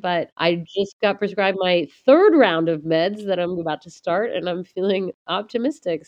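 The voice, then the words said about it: Congested, sinus-affected voice. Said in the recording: “I'm sure you can hear it in my voice, a raging sinus infection”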